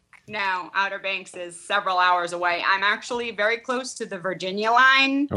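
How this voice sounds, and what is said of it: Boston accent. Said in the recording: “I still have my Boston accent. ... Yeah, you sure do.”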